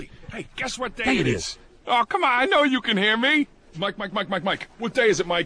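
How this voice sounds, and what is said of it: Camel character, Brooklyn New York accent. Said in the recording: “Part of it's the voice ... The camel with the New York accent ... it has that little Brooklyn kind of... Lilt”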